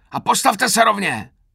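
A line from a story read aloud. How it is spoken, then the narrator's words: Roaring, now milder. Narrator (Czech): zařval už mírněji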